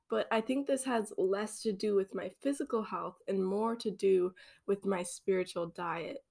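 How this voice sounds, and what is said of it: Voice sounds a little off. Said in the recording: “my voice is a little bit off”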